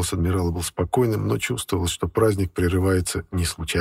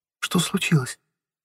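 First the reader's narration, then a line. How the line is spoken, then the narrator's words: Frightened. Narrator (Russian): Испуганно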